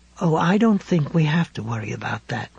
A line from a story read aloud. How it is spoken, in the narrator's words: McGuffin said, speaking in a soothing tone Ralph didn't care for at all